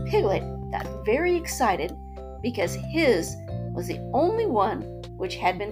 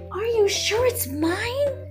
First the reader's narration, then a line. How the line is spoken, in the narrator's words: squeaked Piglet excitedly